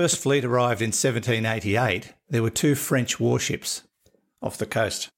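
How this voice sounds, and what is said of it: Usual voice. Nothing is said of it.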